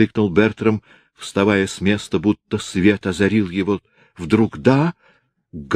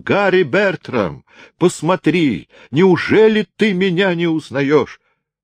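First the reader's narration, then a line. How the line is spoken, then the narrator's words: Trembling tearful loud cry. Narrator (Russian): Он весь дрожа, со слезами на глазах, громко закричал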